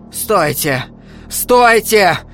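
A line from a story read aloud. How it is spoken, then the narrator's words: Shouted. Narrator (Russian): крикнула Илона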